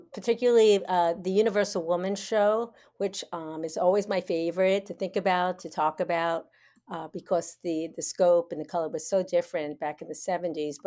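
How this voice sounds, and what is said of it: New York accent. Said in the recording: “accent, which actually you can hear right now is very New York, even though I've lived in Florida for 35 years”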